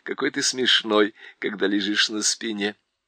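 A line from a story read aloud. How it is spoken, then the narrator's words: Laughing. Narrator (Russian): Шаста засмеялся и сказал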